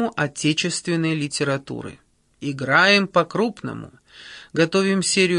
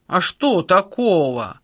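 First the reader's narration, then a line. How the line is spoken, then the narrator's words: Indignant huffing. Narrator (Russian): возмущенно запыхтел Сандро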